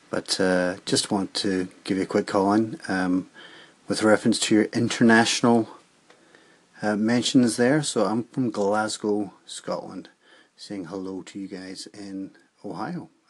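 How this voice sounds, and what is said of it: Mixed Irish, Scottish and American accent. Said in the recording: “My accent's a bit all over the place because I used to live in New York, but I was born in Ireland”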